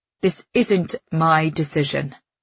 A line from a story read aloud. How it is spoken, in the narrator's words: the colonel says firmly